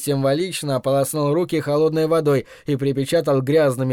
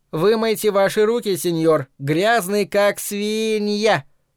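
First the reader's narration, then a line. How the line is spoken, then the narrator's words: Mother shouting. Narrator (Russian): его мать крикнула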